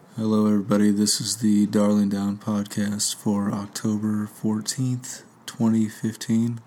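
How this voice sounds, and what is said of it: Speaking very quietly. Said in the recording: “Why are you talking so quiet?”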